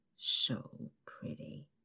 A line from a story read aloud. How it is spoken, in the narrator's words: he mumbles